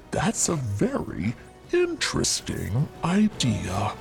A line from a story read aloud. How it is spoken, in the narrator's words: Kurupira purred